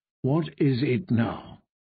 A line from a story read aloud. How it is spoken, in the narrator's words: she said, in a dangerously soft voice